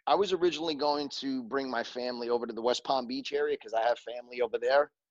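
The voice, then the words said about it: New York accent. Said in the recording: “there's no mistaking your accent ... Never knew I had an accent until I moved out of New York”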